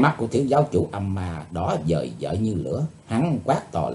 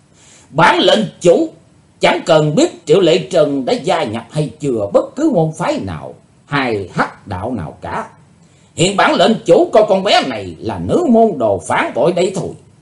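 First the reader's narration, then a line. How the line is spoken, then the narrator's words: Loud burst of laughter. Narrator (Vietnamese): Hải Âu Quái Khách trố lên một tràng cười lớn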